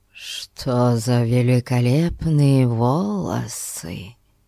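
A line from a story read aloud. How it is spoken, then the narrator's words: Whispered into someone's ear. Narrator (Russian): шепнул граф на ухо Порпоре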